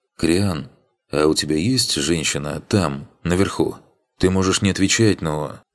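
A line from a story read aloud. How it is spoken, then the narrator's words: Quiet question. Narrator (Russian): тихо спросила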